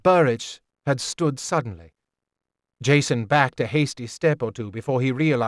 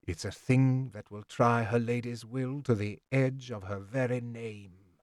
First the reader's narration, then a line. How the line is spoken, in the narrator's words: Burridge said softly